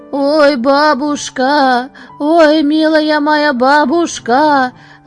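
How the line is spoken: Wild desperate wailing. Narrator (Russian): вопил ты диким голосом, взывая

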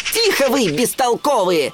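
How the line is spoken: Sharp scolding shout. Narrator (Russian): прикрикнул на них Тимоти

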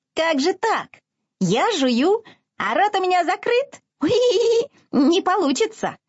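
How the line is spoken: Incredulous piglet squeak. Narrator (Russian): недоверчиво пискнул поросенок

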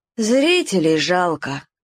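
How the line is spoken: Sighing. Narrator (Russian): вздохнул Славка

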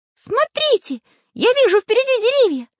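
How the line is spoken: Sudden shout. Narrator (Russian): закричал неожиданно Карандаш

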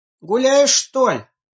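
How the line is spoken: Shouting after someone. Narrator (Russian): крикнул вдогонку

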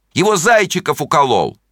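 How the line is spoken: Group shouting. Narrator (Russian): Они кричали

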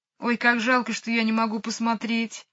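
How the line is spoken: Sad. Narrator (Russian): грустно сказала Джейн

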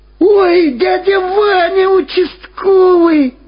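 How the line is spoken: Joyful shout. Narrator (Russian): радостно закричал Владик

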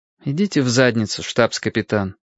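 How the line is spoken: Weary. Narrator (Russian): устало сказал Лен

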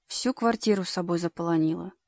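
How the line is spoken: Father grumbling. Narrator (Russian): ворчал Борькин отец

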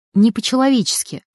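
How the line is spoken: Sigh. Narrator (Russian): вздохнула Эля

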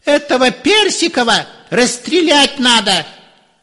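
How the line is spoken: Shrill shout. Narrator (Russian): чей-то визгливый голос кричал

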